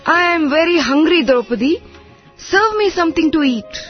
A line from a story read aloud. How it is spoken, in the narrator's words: He called out to Draupadi